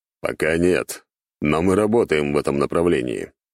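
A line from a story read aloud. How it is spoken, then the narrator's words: Reply with grim chuckle. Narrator (Russian): ответил вместо него Василий Юрьевич и мрачно усмехнулся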